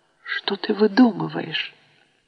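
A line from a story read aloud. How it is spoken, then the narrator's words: Quiet. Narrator (Russian): уже тихо сказала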